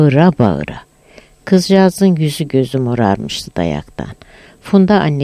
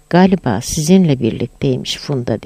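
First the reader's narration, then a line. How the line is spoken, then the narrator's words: Plain. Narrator (Turkish): dedi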